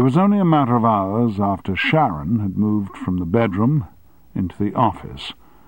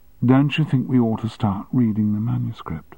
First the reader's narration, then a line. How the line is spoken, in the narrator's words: whispered